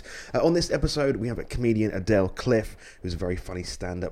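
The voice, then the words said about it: Slightly croaky voice. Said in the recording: “as you can hear from my voice, also I'm slightly croaky at the moment”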